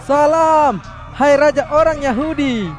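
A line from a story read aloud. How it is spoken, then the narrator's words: Mocking shouted salute. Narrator (Indonesian): mereka pura-pura memberi hormat kepada Yesus dengan berteriak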